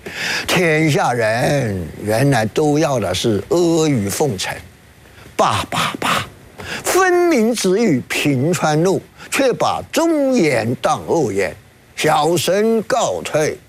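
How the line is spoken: Sighing. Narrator (Chinese): 吴用边走边叹气

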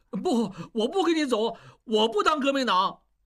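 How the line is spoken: Loud pleading. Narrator (Chinese): 小栓仍在挣扎，大声哀求

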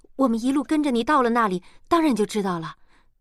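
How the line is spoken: Hurried interjection. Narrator (Chinese): 莲花急忙接过话头

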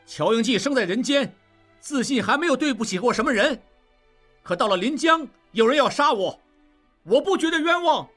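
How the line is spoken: Loud. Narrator (Chinese): 应季大声说

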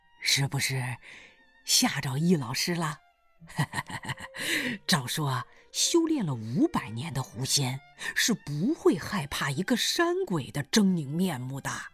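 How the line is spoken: Smiling. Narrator (Chinese): 大胡子冲他笑笑说

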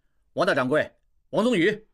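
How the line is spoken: Calling out. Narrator (Chinese): 应季喊

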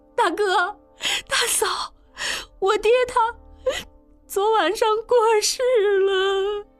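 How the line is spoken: Young woman crying hurriedly. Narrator (Chinese): 应英媳妇匆匆爬过来磕头哭道

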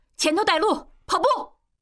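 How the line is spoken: Loud. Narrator (Chinese): 大声对应季和小栓说

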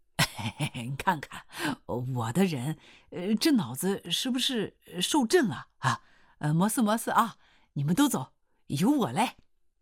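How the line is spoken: Grinning. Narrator (Chinese): 刘洪兵呲啦一笑说

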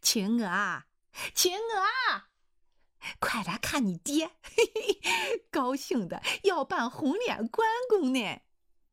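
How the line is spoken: Laughing. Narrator (Chinese): 胡秀英笑了

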